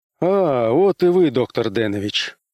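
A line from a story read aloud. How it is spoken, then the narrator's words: Relieved sigh. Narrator (Russian): облегченно вздохнул Уэнтворт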